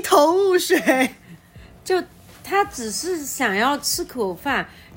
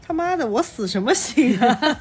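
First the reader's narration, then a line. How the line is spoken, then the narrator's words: Muttering. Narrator (Chinese): 李光头嘴里嘟囔着说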